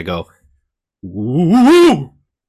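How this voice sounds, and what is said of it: Ghostly woo sound. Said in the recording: “You sounded like a ghost.”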